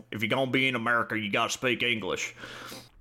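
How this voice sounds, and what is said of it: Put-on Southern accent. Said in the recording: “He said it in like a ... Southern accent. Like a it's good accent.”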